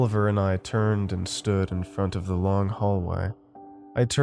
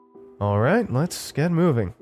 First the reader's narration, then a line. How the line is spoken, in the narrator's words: in a lighthearted tone